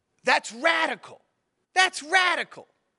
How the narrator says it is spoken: started like almost screaming, and he was saying

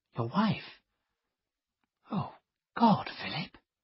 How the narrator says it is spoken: she whispered

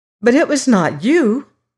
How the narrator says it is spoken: cried Molly

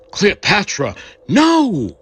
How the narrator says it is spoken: shouting in desperate screams

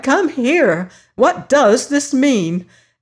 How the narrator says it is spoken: she had cried

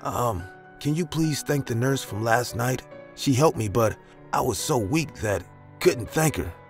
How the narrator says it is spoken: I said in a feeble voice

